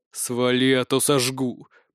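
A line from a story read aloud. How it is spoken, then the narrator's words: Growled. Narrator (Russian): прорычал я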